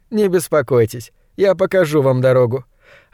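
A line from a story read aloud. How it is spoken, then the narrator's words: Laughing. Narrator (Russian): Жаклин рассмеялась и сказала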